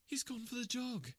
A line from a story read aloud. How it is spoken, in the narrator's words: cried Miss Hunter